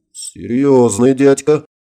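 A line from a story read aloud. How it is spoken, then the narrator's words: Grim smirk. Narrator (Russian): мрачно усмехнулся Харитонов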